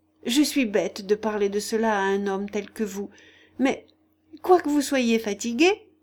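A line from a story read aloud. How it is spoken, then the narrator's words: Added laughing. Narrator (French): ajouta-t-elle en riant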